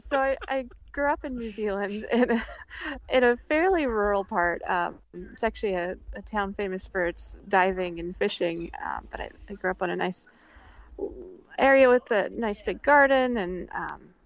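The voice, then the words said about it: New Zealand accent. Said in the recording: “Bit of an accent... Apparently my sentence structure is a little bit British colony”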